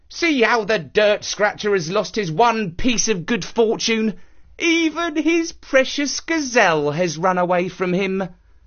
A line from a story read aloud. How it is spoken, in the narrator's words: The villagers mocked him, saying